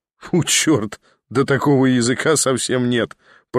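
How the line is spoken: Laughing. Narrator (Russian): продолжал смеяться Николя

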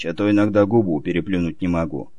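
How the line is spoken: Envious mutter. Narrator (Russian): с завистью пробормотал Олег Борисович

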